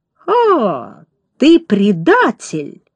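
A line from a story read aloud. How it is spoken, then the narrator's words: Contemptuous exclamation. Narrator (Russian): презрительно воскликнул начальник стражи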